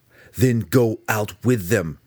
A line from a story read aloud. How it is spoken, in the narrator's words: Drizzt yelled at him